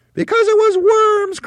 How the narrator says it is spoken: cried Mrs

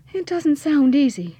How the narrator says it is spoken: sighed Petronella

